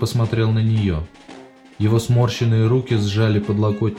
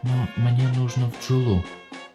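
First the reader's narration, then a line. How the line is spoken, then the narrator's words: Quiet. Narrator (Russian): тихо сказала Дел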